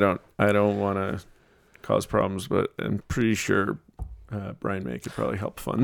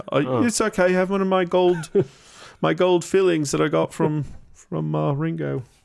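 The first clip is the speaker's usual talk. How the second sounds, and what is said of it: Put-on British accent. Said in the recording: “Does he have a British accent? ... Yes. ... That's my attempt at being a rock star.”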